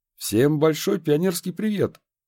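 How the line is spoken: Joyfully blurted out. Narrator (Russian): радостно выпалил

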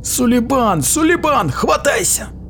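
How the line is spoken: Shout. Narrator (Russian): крикнул Иона, высунувшись за борт

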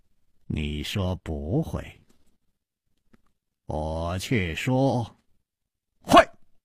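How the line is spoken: Slow smiling. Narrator (Chinese): 楚留香缓缓地笑了

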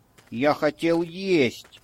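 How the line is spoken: Whiny drawl, sniffling. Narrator (Russian): жалобно протянул он и зашморгал носом

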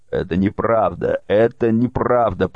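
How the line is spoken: Shocked pale exclamation. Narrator (Russian): побледнев, воскликнул Наполеон

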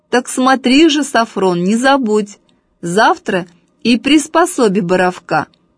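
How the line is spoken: Loud. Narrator (Russian): громко сказал Сафрону

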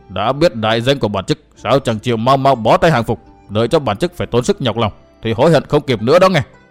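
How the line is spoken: Scornful sneer. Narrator (Vietnamese): Gã đại hán hất hàm cười khẩy một tiếng

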